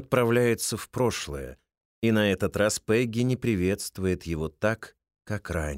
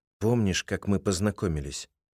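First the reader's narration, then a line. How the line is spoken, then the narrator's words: Sad, longing question. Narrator (Russian): Его с новой силой тянет к ней, и он печально спрашивает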